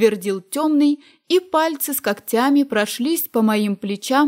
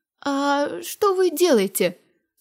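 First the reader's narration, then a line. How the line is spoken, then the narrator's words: Weakening voice. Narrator (Russian): спросила слабеющим голосом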